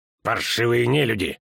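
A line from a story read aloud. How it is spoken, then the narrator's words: Growling priest. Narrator (Russian): рыкнул жрец Вильмер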